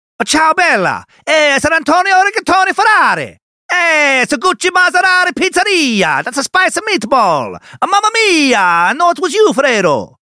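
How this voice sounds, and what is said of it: Exaggerated mock Italian accent. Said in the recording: “I speak perfect Italian ... Fucking nailed it! Masterclass!”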